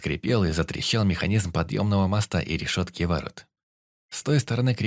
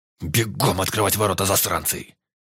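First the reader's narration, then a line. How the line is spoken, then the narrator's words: Commander barking. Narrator (Russian): Рявкнул подошедший командир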